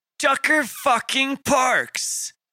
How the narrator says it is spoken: the short man exclaimed

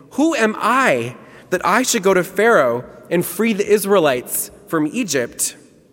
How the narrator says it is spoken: Moses exclaims

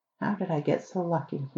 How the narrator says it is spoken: he murmured

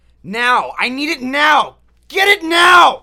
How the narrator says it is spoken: he could hear him shouting

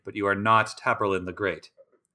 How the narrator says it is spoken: said dryly

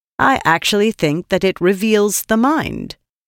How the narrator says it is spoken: she said

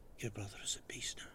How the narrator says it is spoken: with Dominic out of earshot, Babu whispers

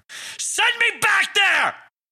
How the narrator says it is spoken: Parker screamed

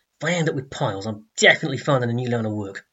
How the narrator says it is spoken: he muttered to himself

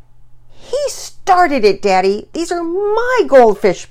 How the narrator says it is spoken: Penelope exclaimed

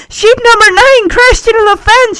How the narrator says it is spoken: she yells

